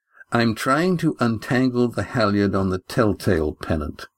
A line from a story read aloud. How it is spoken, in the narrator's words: said Astraea evenly